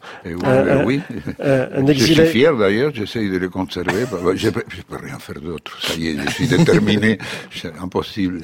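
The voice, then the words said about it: Argentine accent in French. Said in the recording (French): “d'Argentine ... avec l'accent qui est le vôtre ... un exilé argentin, c'est quelqu'un qui a tout perdu sauf l'accent”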